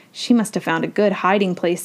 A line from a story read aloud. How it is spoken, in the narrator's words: said Annie